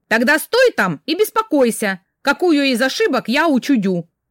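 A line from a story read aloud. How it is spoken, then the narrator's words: Shout. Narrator (Russian): крикнула я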